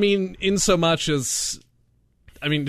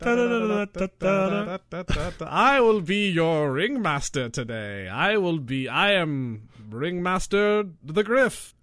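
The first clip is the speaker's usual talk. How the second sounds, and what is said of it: Ringmaster voice, faint Transylvanian accent. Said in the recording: “it sounded like you almost had an accent, but you didn't... there's just kind of a voice... It was like on the edge... I was like edging Transylvania.”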